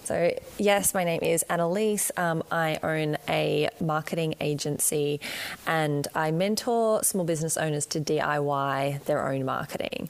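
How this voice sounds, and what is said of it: Australian accent. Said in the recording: “as you can probably hear from my accent, I am right down the bottom in Australia”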